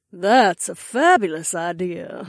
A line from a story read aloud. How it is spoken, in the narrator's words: Mama Bee purred